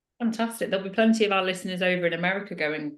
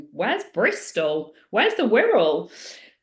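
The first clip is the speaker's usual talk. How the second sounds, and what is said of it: Mimicked American accent. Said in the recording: “So I'm mimicking American accent.”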